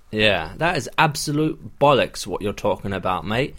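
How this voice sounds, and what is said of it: Put-on accent, not very convincing. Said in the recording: “How's the accent? ... It's about as good as your Australian accent.”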